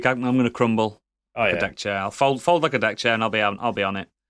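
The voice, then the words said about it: Yorkshire accent. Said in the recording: “with a Yorkshire accent”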